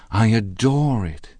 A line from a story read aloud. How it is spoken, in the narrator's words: exclaimed Daisy